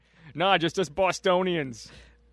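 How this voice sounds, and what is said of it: Bad put-on Boston accent. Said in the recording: “That was a bad Boston accent, wasn't it?”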